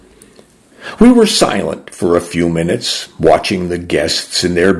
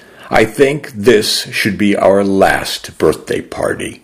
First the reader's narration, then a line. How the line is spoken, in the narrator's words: said slowly through the grief and the ache in my chest